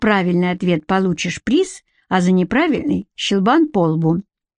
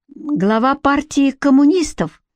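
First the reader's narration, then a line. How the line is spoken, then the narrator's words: Uncertain. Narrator (Russian): неуверенно сказал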